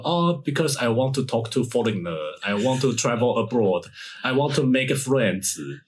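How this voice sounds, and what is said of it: Mocking accented English imitation. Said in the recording (Chinese): “口音会不会太歧视了？”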